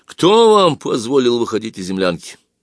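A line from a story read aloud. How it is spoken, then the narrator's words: Near shout. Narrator (Russian): почти крикнул лейтенант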